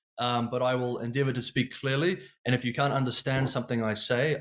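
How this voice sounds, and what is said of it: New Zealand accent. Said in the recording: “my accent. I'm from New Zealand, so it's a bit of a funny accent. The E's and the A's, New Zealand, bed, head.”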